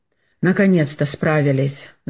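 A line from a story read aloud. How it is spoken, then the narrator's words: Exhausted sigh. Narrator (Russian): вздохнул порядком измотанный доктор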